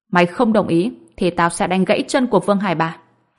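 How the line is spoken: Cold. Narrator (Vietnamese): Ông Phi lạnh lùng nói

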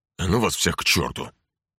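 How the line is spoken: Snorting dismissively. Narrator (Russian): фыркнул Геринг

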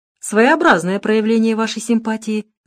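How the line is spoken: Laughing. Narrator (Russian): засмеялась Лона

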